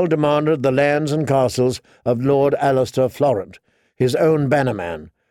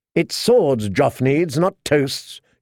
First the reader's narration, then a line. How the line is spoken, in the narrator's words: she snapped